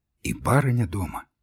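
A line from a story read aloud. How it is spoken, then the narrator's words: Whispered question. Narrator (Russian): спросил у меня шепотом Кукушкин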